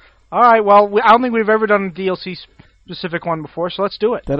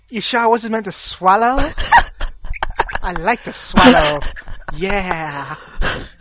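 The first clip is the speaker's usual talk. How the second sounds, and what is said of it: Put-on stereotyped gay-voice accent. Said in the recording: “Say that in your accent. ... The one that was meant to be gay.”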